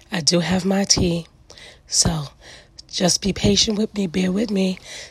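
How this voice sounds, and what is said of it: Raspy voice. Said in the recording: “my voice is still raspy.”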